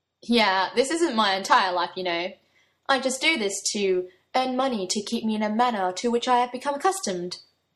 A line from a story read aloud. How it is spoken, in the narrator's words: he put on a posh voice, not unlike Arthur's own